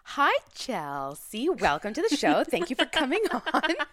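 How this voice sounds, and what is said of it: Radio announcer voice. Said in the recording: “That's her radio announcer voice. That's new.”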